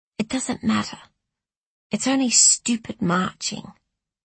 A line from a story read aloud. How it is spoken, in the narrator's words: she said very quietly in my ear